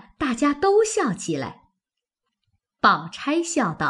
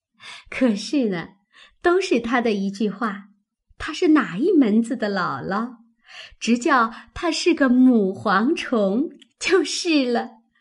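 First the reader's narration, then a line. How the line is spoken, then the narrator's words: Quick laughing reply. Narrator (Chinese): 黛玉忙笑接道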